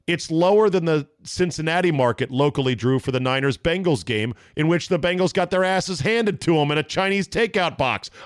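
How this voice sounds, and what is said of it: Yelling, loud agitated delivery. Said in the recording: “I'm not yelling, am I? I'm yelling.”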